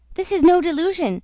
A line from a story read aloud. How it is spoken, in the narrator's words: cried Huntsman the Unlucky